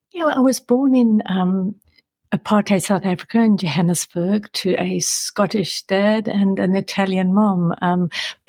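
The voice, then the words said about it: South African accent. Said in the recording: “You've got a wonderful accent, and I'm aware you grew up in South Africa.”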